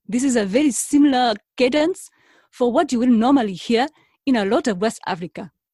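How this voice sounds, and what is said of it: Put-on West African accent. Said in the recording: “African ... when I say African, I say West Africa ... they kind of talk like this”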